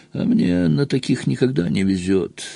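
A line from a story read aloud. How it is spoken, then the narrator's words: Sad. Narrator (Russian): грустно сказал Пьер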